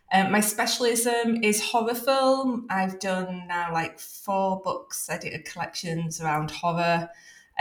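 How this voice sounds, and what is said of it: Leeds accent, British English. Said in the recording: “for those that know British accents, they'll also realise that I am originally from Leeds”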